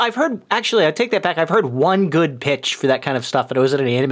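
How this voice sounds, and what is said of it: Usual voice. Nothing is said of it.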